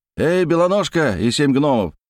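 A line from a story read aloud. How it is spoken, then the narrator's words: Shouted. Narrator (Russian): закричал Терехов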